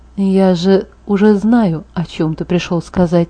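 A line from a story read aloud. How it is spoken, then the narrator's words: Barely audible reminder. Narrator (Russian): напомнил едва слышно, и я сама еле разбирала, что он сказал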